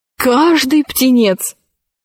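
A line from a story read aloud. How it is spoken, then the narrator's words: Exclaiming. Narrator (Russian): воскликнул он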